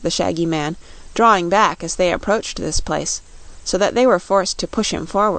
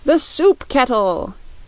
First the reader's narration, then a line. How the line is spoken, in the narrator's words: yelled the Scoodlers